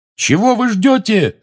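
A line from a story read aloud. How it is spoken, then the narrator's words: Yell. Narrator (Russian): заорал он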